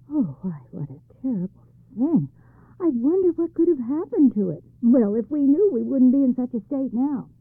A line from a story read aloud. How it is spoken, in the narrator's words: The youth suppressed his laughter and said